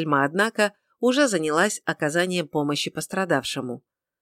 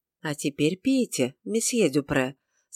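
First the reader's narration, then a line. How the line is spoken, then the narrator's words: Soft but firm. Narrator (Russian): сказала она мягко, но решительно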